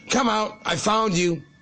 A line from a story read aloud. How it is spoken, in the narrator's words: called out